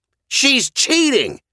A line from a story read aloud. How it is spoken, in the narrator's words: the shrill woman yelled